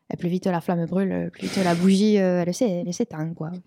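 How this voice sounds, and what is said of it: Put-on southern French accent. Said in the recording (French): “l'accent du Sud”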